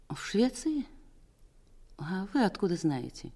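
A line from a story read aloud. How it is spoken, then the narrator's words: Weak shaken question. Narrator (Russian): Она оправилась от потрясения и даже спросила слабым голосом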